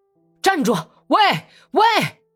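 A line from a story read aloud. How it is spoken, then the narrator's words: Louder shout. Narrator (Chinese): 又更响亮的喊了一声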